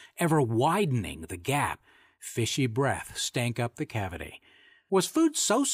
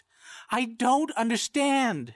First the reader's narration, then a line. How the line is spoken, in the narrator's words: she wailed, as if offended by her own spiritual premonitions